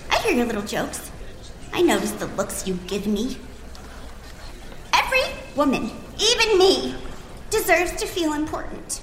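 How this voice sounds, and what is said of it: Valley girl accent. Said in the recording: “I have a valley girl accent”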